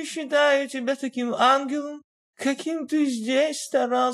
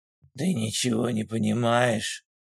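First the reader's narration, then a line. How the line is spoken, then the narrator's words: Sighing. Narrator (Russian): вздохнул Вадим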